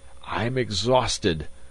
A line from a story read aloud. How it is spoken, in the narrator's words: Magnan gasped